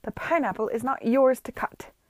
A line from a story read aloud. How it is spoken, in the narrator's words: Lady Denham thundered